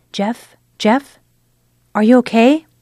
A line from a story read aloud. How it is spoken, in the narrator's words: She called out softly